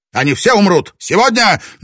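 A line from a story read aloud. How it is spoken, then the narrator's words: Piercing scream. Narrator (Russian): Дзодзен пронзительно закричал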